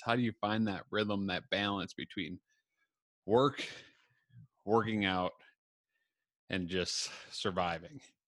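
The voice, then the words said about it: Breathless, out-of-breath speech. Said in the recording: “I'm a little out of breath ... I'm out of breath because I was working out”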